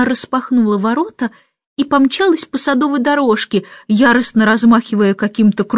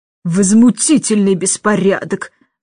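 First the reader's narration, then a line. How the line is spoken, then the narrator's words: Irritated. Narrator (Russian): заметила она раздраженно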